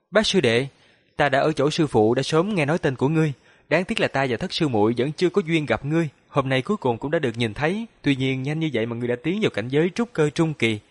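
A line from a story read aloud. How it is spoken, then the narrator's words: Smiling man. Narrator (Vietnamese): Nam tử có khuôn mặt nho nhã mỉm cười nói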